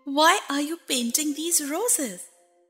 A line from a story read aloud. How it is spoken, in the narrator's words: said Alice a little timidly